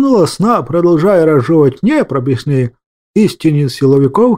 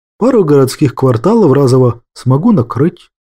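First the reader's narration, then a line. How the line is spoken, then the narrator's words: Calm, matter-of-fact. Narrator (Russian): спокойно сообщил Петр Петрович, как само собой разумеющееся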